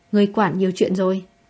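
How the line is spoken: Cold. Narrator (Vietnamese): lạnh lùng nói

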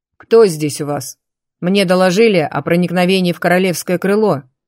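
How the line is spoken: Stern. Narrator (Russian): строго сказал принц

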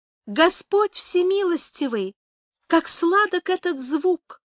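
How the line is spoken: Thin childlike singing. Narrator (Russian): запела она тоненьким детским голоском

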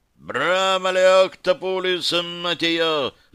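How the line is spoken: Yelling. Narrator (Russian): заорал

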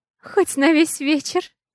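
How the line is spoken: Mother giggling. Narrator (Russian): хихикает мама Алекса

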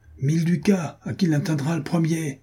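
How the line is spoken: Shouted. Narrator (French): cria Jean de Werth

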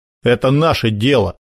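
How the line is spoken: Spiteful smirking remark. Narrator (Russian): Зло усмехнулся долговязый

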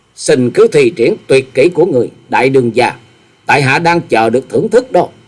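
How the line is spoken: Calm, slight smile. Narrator (Vietnamese): Nhậm Xương Bạch hơi mỉm cười, chàng thản nhiên nói

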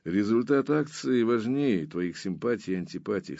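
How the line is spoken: Dry, curt tone. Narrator (Russian): сухо сказал Баренц

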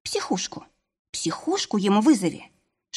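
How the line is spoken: Inner voice whispering. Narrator (Russian): шепнул внутренний голос

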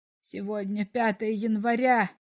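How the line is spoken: Despairing mutter. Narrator (Russian): в отчаянии пробормотал комиссар

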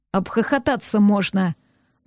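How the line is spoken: Gloomy savage. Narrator (Russian): мрачно выдал дикарь

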